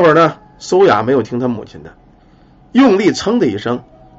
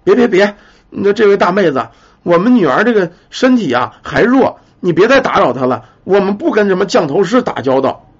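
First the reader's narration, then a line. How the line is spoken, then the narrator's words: Hurried, urgent mother. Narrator (Chinese): 苏雅的母亲急忙阻止着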